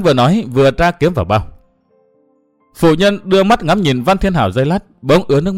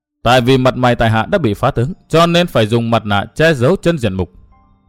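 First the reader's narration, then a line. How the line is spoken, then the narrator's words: Cold laugh. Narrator (Vietnamese): cười nhạt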